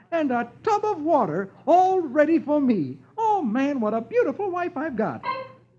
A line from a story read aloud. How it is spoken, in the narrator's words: he exclaims